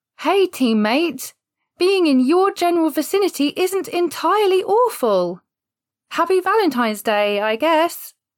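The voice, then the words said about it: Fake cheerful customer service voice. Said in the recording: “So now I have to do fake cheerful. ... Customer service voice.”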